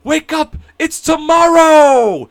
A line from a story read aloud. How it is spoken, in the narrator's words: yelled it 2 or 3 times out the window